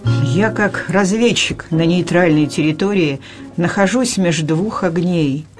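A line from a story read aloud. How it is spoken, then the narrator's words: Sighing. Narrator (Russian): Аркадий вздохнул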